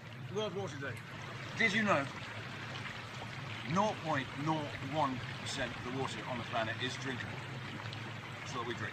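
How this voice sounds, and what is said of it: Speaker with an accent. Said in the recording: “he has an accent”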